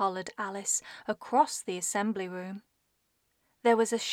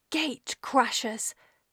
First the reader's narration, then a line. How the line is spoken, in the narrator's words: spluttered Paige Turner